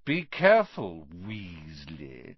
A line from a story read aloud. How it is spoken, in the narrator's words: sneered Malfoy